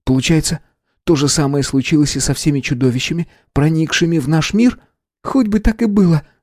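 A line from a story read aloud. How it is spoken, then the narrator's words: Exclaimed. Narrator (Russian): воскликнула Мэгги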